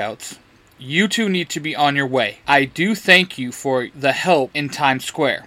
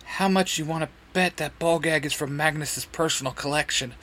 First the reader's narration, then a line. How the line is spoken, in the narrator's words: Simon whispers to Izzy